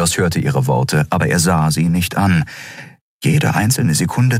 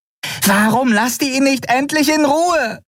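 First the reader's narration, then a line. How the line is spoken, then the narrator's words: Angry shout. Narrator (German): schrie Nelen in ihrem Käfig die Weißmäntel an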